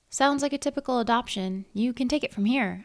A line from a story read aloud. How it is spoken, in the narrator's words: I said, willing my voice to sound calm